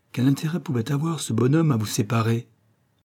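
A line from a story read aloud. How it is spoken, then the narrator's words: Light casual tone. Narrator (French): fit-il d'un ton léger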